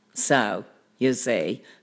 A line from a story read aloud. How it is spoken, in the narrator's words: laughed the cat